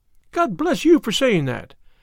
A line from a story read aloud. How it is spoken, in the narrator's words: cried Miss Harrison